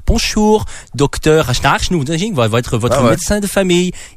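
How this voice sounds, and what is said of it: Attempted Danish accent in French. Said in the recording (French): “je vais essayer d'imiter un accent danois, mais probablement que c'est pas ça.”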